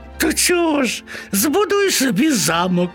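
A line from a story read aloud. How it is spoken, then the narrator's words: Laughing mice. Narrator (Ukrainian): засміялися миші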